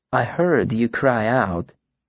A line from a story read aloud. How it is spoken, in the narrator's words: she continued softly